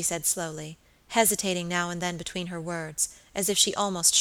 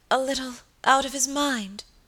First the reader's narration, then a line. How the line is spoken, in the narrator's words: faltered Lady Audley